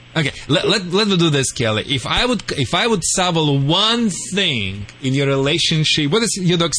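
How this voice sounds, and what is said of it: Strange Russian accent. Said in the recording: “the world famous Russian dog wizard ... I have a very strange accent, true.”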